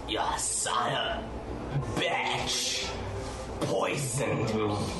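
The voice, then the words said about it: Blighted Geth creature voice. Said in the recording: “In a Geth voice, in a blighted voice”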